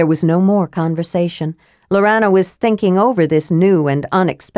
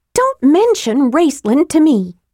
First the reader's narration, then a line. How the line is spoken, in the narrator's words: Tika snapped